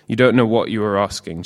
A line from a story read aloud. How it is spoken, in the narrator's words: Jesus said